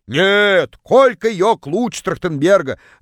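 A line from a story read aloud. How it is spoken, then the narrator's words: Distant yell. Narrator (Russian): Заорала одна из них из самого дальнего угла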